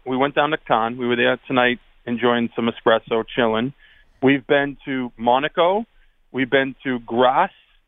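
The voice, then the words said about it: Boston accent. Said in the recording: “Not how the French intended it with that Boston accent”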